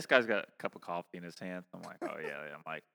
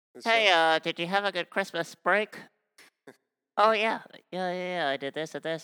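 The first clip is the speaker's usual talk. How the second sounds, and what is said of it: Imitates another person's voice. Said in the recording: “I'm going to try to do a good impression of him.”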